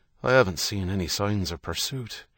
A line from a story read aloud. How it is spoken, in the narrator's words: Herity said, his tone pensive